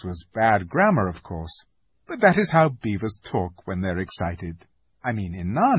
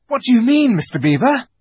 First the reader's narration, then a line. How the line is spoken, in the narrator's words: panted Peter, as they all scrambled up the steep bank of the valley together